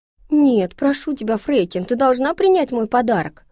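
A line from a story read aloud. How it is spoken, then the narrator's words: Exclamation. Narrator (Russian): воскликнула Пеппи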